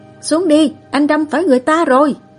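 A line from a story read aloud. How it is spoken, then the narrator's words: Young man shouting loudly. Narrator (Vietnamese): Một cậu sinh viên đập vào kính cửa ô tô của Mã Dược Sinh rồi hét lớn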